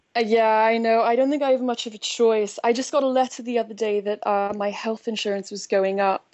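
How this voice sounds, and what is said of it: Noticeable accent. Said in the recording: “you've probably noticed my accent.”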